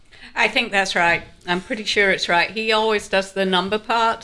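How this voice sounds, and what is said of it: English Yorkshire accent. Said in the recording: “I'm originally from Yorkshire, England ... There's an accent here.”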